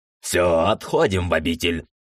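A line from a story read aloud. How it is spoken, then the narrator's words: Fierce bark, big man. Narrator (Russian): рявкнул здоровяк таким тоном, что даже меня проняло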